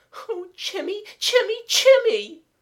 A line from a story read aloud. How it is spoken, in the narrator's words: Kathleen sobbed louder than before